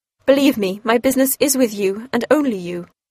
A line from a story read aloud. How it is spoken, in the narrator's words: said Willoughby